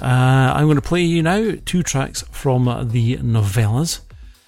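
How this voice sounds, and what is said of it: Dry, slightly hoarse voice. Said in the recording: “my throat's getting a bit dry. You probably hear it in my voice.”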